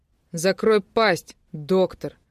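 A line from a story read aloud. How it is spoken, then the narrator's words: Man roaring. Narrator (Russian): взревел мужчина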